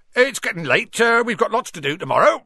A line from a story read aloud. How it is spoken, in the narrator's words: said Hagrid loudly